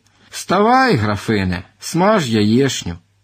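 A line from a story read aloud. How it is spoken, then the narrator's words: Reminding herself. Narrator (Ukrainian): нагадала собі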